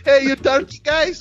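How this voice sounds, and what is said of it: Exaggerated cartoonish Italian accent. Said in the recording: “Mine's was worse. Mine sounded like an Italian for fucking Family Guy.”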